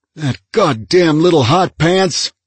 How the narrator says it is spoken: he shouted

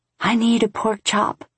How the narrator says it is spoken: whisper calling up

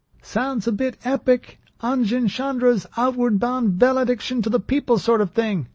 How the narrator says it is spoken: Trepp shouted

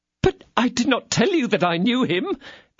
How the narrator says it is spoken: cried Monsieur Bonancieux in despair

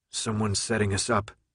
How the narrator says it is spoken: he muttered

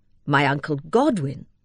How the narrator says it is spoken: he exclaimed

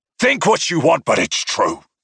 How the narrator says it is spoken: he snapped

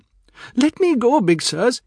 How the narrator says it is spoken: he pleaded

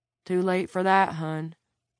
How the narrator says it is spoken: Terry said

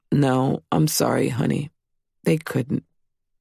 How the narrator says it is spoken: sadly said

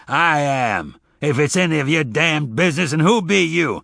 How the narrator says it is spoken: He said gruffly

